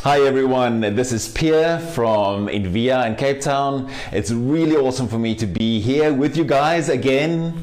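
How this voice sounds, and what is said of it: South African English accent. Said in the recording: “a South African ... you're gonna really enjoy his accent”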